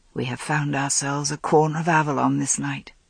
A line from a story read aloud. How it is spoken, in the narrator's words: he murmured